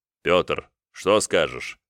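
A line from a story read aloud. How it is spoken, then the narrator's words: Deep bass voice. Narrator (Russian): пробасил Ярополк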